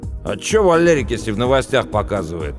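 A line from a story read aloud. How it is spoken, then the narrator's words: Snapping back. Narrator (Russian): огрызнулся Пашка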